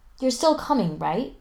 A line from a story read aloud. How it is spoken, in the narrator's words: Spencer asks anxiously